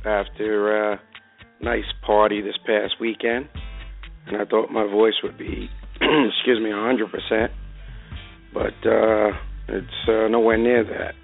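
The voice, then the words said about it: Slightly hoarse voice. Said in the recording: “apologize for my voice. A little hoarse”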